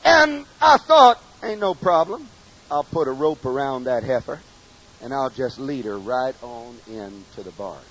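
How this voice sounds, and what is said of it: Regional American accent. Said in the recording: “In case you wondered where I got this accent from”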